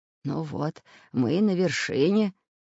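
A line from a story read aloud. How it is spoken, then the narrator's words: Breathless exhale. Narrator (Russian): выдохнул профессор Пыхтелкин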